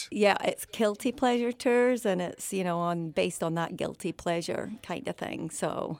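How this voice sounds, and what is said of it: Scottish accent. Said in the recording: “she's from Scotland ... I love the accent”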